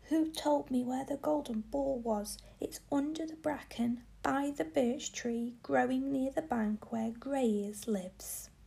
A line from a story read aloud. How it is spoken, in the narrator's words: he shouted to him